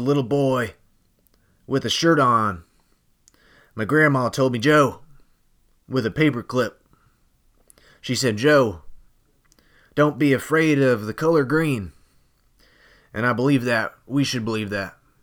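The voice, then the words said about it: Joe Biden impression. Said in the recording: “exactly something that Joe Biden would say ... completely spot on impersonation”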